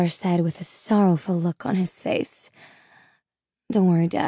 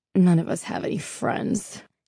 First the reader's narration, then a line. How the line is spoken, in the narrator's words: Jay scoffed